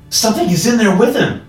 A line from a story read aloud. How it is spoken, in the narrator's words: shouted